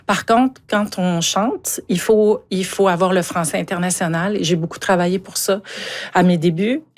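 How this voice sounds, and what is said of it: Strong Montmagny Quebec regional accent. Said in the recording (French): “énorme accent de Montmagny ... c'est un très bel accent là, de Montmagny quand même”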